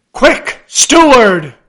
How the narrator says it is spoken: cried Ahab

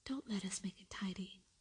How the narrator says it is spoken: said Mary anxiously

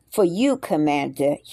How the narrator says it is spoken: he replied

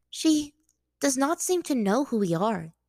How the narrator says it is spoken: Yue said, her voice hesitant

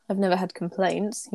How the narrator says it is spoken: he mutters

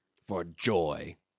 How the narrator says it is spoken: snorted Cornelius

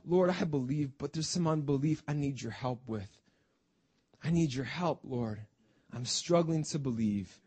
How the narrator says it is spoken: the man cries out

